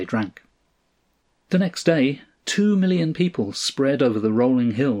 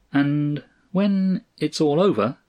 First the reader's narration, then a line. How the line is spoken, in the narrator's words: observed Cross slowly